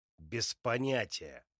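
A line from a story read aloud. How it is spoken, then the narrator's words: Angry snap. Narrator (Russian): зло огрызается мне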